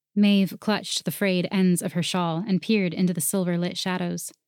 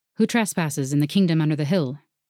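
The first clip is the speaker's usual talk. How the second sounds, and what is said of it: Deep character voice. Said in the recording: “a deep voice”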